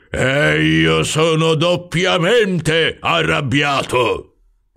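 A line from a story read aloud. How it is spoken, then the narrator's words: Roared. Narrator (Italian): ruggì il signor Troll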